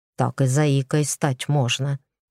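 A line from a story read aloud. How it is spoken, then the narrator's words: Grumbled. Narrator (Russian): буркнул Игорь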